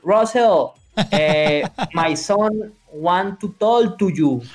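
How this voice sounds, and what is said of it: Heavy Colombian Spanish accent. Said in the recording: “that's the Spanish accent. ... Super Colombian accent.”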